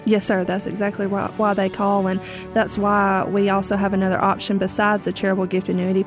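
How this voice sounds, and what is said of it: Southern American accent. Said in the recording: “talk in a southern accent like you do”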